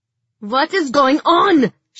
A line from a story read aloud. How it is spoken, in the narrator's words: she shouted